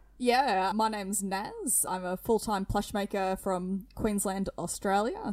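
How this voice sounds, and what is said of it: Thick Australian accent. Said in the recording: “I hope my accent's not too thick”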